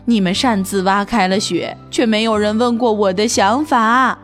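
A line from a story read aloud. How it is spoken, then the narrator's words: Sad sighing. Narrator (Chinese): 伊尔叹了口气，伤心地说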